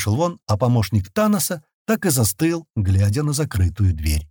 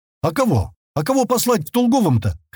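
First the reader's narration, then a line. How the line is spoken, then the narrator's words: Shouting after someone. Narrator (Russian): крикнул Пайгал в спину наследника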